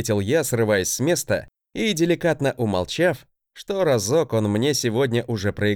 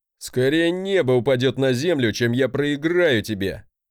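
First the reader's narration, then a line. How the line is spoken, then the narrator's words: Laughing. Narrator (Russian): хохотнул он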